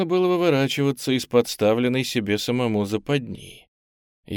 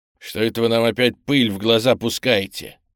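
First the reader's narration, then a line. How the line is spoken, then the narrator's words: Irritated grumble. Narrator (Russian): раздраженно буркнул низенький чекист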